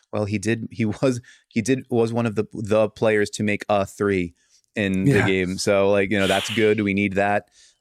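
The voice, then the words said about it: Wryly sarcastic Jason Kidd impression. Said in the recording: “he's pretty sarcastic, like wryly sarcastic in a lot of his pressers ... Your Kidd impression is pretty good.”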